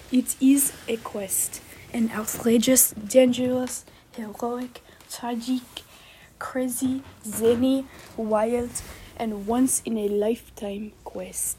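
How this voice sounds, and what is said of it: Exaggerated French accent. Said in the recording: “accent more French than ever”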